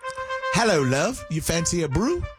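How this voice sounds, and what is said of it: Attempted British accent, sounds ambiguous. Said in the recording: “Get your British accent ready ... my British accent sounds a lot like I'm from Australia ... That could have been British, Australian, New Zealand. I don't know what it was.”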